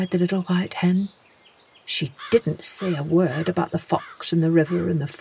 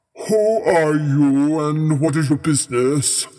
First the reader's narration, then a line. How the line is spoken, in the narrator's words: asked the king in his big, deep, kingly voice